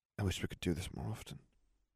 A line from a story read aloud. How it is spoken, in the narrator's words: she whispered